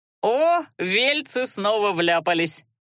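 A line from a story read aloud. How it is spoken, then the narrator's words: Chuckle nearby. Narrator (Russian): хохотнули рядом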